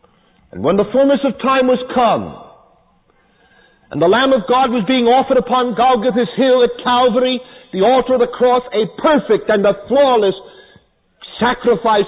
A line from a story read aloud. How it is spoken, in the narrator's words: he cried at the end with a loud voice